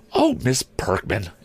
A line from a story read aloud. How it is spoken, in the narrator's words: exclaimed a voice